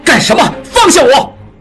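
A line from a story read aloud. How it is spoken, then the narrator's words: Furious shouting. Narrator (Chinese): 应季怒不可遏，大喊大叫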